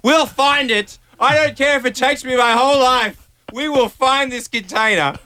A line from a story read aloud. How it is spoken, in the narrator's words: I was shouting at her, like on my knees shouting at her